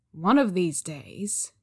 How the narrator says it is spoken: Zhang Cheng muttered

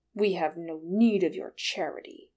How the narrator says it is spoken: Thorin snarled

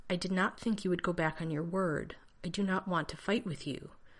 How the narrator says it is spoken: Vanren said stiffly

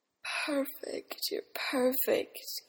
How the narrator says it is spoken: Eames sighed

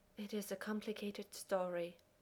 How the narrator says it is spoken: Taylor says, sighing

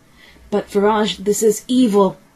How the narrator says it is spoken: cried the doctor

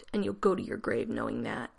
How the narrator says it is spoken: he croaked

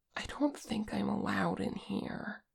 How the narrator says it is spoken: Che whispered

